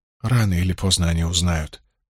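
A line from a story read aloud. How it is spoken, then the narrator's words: Mumble. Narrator (Russian): пробормотала Найниф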